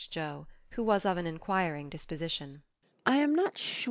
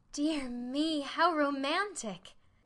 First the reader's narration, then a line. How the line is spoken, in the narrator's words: exclaimed Meg